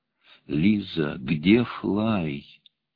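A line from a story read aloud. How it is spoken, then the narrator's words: Gentle question. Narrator (Russian): Ласково, насколько мог, спросил я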